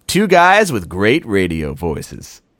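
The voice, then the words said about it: Put-on radio announcer voice. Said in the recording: “my great radio voice ... that sounded like shit”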